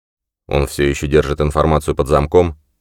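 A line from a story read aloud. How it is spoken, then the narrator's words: Snorting. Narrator (Russian): Аманда фыркнула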